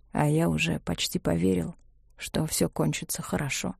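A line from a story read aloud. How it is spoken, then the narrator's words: Barely audible. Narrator (Russian): сказал Мартин еле слышно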